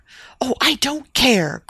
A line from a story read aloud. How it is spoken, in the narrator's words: cried the younger recklessly